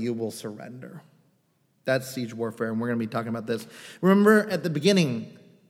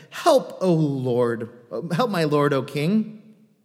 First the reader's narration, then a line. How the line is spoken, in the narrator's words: a woman cried out to him, saying